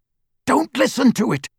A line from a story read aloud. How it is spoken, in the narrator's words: Harry said harshly